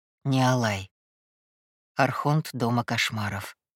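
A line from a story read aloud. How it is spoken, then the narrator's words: Barely audible prompt. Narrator (Russian): едва слышно подсказал Кай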